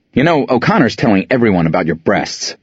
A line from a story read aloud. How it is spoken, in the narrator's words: I blurt out